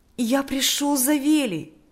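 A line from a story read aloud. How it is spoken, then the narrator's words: Joyful. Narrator (Russian): сказал Миша радостным голосом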